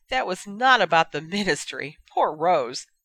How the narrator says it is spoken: Madame Rosmerta laughed

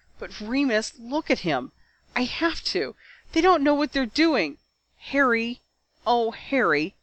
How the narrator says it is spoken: said Jinny, her voice full of tears

